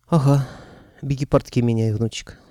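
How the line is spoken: Old man's giggle. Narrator (Russian): хихикнул дед

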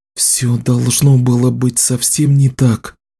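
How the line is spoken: Whispered. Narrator (Russian): прошептала Кэлен

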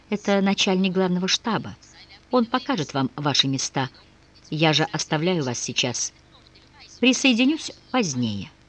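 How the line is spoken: Quiet, into ear. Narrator (Russian): Азарев тихо сказал на ухо графу

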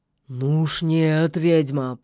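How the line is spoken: Wolf's growl. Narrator (Russian): прорычал серый волк

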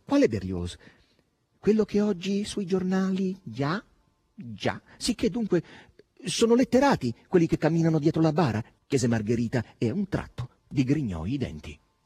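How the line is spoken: Sudden exclamation. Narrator (Italian): esclamò un tratto

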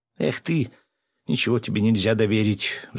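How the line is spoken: Sighing. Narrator (Russian): вздохнула Аня

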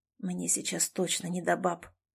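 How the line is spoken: Hoarse. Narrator (Russian): прохрипел он

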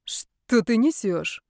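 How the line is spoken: Tired indignation. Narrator (Russian): устало возмутилась я

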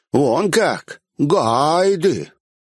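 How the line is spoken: Mocking drawl. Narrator (Russian): Последнее слово он протянул, как бы издеваясь надо мной

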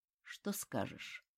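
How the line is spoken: Asked in an undertone. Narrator (Russian): вполголоса спросил

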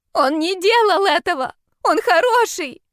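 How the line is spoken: Breathless desperate shout. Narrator (Russian): крикнула она и вновь захлебнулась воздухом

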